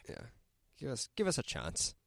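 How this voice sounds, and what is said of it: Slight put-on Irish accent. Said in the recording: “What was that, an accent? ... Yeah, a little bit. ... What, Irish? ... A little bit.”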